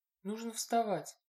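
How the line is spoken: Mumbled. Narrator (Russian): пробормотала

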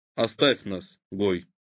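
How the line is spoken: Calm sober voice. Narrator (Russian): сказал совершенно трезвым, спокойным голосом

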